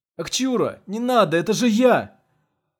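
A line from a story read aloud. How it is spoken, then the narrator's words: Pleading shout. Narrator (Russian): крикнул Игорь с мольбой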